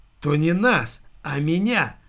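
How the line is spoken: Angry hiss. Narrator (Russian): злобно прошипел Дэн

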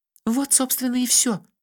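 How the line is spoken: Sighing. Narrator (Russian): вздохнула Меломори

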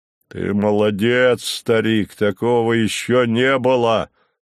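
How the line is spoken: Deep bass voice. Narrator (Russian): пробасил он

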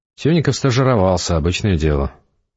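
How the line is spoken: Gruff mutter. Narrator (Russian): буркнул Эдгар напарнику

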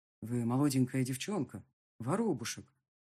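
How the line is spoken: Dull, muffled voice. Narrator (Russian): глухо произнес фон Морнген

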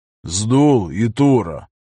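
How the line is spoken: Deliberately calm call. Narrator (Russian): Нарочито спокойным голосом позвал он

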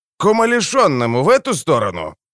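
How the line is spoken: Hmphing. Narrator (Russian): Фермер, больше похожий на огородное пугало, хмыкнул

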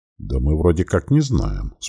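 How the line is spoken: Calm reply. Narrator (Russian): спокойно ответил старший Дегриз

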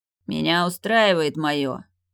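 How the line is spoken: Growled. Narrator (Russian): рыкнул Лем

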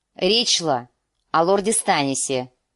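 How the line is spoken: Irritated reply. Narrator (Russian): раздраженным тоном ответил Уолтер Фрей

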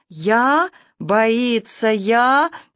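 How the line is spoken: Confused, disappointed drawl. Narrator (Russian): растерянно и словно бы разочарованно протянула ведьма Танька

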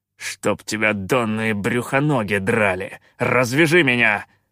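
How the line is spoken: Growled. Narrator (Russian): прорычал Калаан

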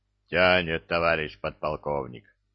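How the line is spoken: Deep booming voice. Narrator (Russian): забасила башня

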